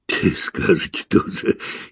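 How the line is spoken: Giggling. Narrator (Russian): хихикнул Виктор

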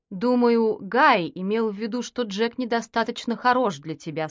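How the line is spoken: Plain. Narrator (Russian): сказал Ариэль

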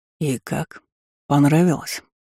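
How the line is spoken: Velvety voice. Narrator (Russian): бархатистым голосом спросил дракон

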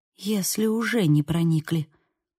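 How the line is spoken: Whispered. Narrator (Russian): прошептала

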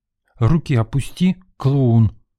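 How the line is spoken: Angry woman breathing out. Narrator (Russian): зло выдохнула женщина

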